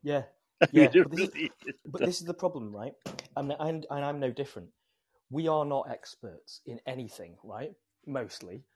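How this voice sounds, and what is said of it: British accent. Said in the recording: “I can tell your accent is real. You're a real Brit.”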